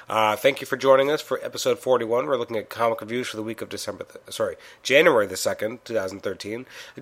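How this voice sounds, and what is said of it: Congested voice with a cold. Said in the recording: “I'm actually a little under the weather right now. I'm kind of sick, so I apologize for my voice. I sound like I'm having a cold”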